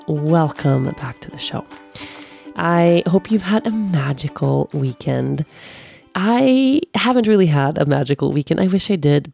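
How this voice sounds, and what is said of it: Voice sounds sick with a cold. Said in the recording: “maybe you can tell by the sound of my voice. I have a cold right now. I am healing from a cold.”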